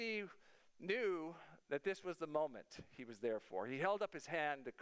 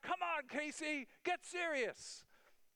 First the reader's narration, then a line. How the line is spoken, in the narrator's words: They were shouting out